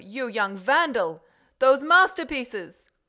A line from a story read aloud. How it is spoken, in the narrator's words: shouted the Count